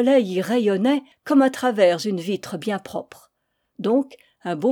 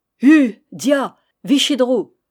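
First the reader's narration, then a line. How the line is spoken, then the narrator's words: Crowd shouting. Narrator (French): Les gens criaient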